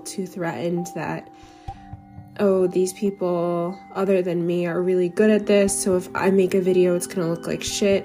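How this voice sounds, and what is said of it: Sick voice from the flu. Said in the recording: “I've had the flu the last week, if you can tell in my voice. My voice sounds so much better than it did even two days, even yesterday.”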